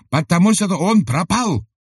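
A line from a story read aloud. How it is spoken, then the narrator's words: Shouting. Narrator (Russian): закричал Сибата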